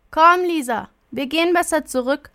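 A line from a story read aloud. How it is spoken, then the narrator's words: Disappointed call. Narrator (German): ruft Marie enttäuscht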